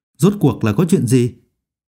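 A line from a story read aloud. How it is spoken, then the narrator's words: Deep-voiced demanding shout. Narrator (Vietnamese): Phương Mộc trầm giọng quát hỏi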